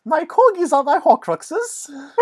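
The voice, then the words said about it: Impression of the Queen, British accent. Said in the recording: “to channel Luba Goy, circa Royal Canadian Air Farce ... your favorite British accent”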